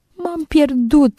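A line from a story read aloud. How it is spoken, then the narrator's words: Stammering through tears. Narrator (Romanian): îngână ea plângând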